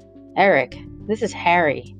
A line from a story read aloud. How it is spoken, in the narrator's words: said